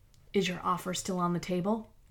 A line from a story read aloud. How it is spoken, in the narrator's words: Lara leaned toward the bug and whispered